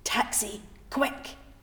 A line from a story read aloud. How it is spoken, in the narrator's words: Moira hisses